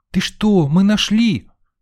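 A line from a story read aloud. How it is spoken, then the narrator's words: Exclaimed. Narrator (Russian): воскликнула Лена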